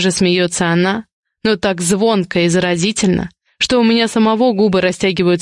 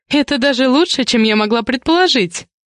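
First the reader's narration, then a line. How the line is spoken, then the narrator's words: Giggling. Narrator (Russian): хихикает она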